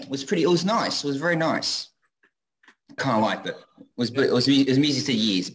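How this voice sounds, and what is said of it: Speaks with a non-local accent. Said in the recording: “love your accent ... I've got an annoying voice”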